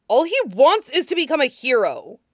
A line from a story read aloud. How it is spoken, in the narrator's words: he said through his teeth, louder